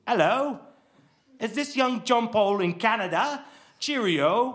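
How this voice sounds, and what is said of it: Put-on English accent. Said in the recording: “he did sound like my father, but an accent. No one can fake an accent.”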